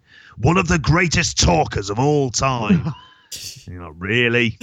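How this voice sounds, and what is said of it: Imitates another person's voice. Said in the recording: “That was a good impression.”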